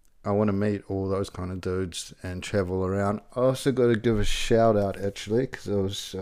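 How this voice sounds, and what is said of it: Usual voice. Nothing is said of it.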